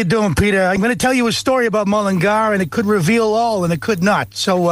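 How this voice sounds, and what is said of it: Usual voice. Nothing is said of it.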